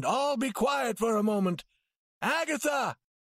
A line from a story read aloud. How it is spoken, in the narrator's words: he called as loudly as he could